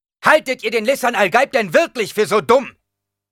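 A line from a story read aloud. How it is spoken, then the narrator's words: Angry shouting. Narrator (German): schrie er wütend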